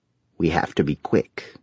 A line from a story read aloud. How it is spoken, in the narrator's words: Grandmaster Naraka whispered